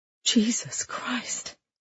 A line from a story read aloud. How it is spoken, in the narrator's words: Lydia breathed